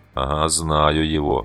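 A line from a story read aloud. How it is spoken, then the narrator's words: Gruff grumble. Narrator (Russian): буркнул угольщик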